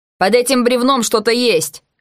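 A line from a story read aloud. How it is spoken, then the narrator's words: Dog handler shouting. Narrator (Russian): крикнул кинолог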